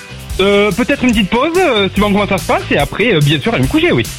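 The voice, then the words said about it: Slight Toulouse French accent. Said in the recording (French): “il y a le petit accent de Toulouse”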